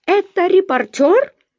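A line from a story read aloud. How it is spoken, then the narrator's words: Shriek. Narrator (Russian): взвизгнул он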